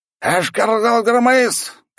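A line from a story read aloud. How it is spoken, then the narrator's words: Loud bark. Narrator (Russian): громко рявкнул он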